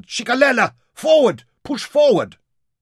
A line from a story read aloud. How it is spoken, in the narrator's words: those behind shouted